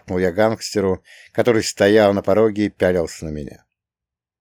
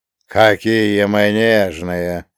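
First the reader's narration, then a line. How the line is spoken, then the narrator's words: Snorted. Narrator (Russian): фыркнул провожатый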